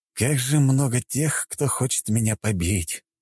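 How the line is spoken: Resigned sigh. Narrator (Russian): обреченно вздохнул я

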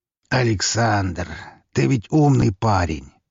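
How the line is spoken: Sighing. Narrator (Russian): вздохнул он

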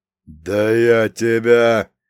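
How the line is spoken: Growling old man. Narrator (Russian): прорычал дед

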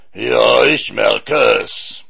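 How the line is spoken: Giant roaring. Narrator (German): brüllte der Riese

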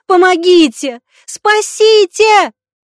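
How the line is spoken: Very loud scream. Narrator (Russian): Дягилева закричала так, что ее услышал весь госпиталь

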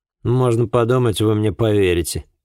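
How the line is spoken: Scoffing. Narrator (Russian): хмыкнул он

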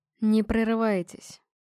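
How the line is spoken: Soft. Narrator (Russian): мягко сказал он

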